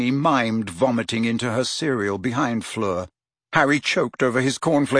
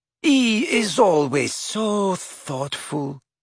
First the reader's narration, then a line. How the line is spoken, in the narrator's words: purred Fleur adoringly